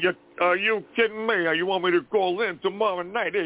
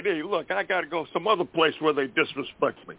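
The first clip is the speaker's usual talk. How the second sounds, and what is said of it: Rodney Dangerfield impression. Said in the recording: “I do a decent imitation of? I do Rodney Dangerfield.”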